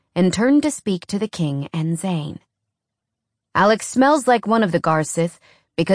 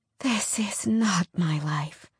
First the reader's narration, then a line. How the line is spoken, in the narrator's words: she whispered